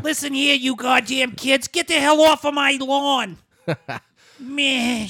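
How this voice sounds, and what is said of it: Old lady with New York accent. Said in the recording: “She had like a New York accent... Was like an old lady”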